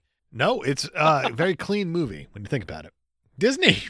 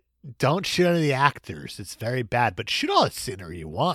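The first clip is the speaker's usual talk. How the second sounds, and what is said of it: Imitates another person's voice. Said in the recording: “This is Uncle Walt Disney talking. ... ignore my accent.”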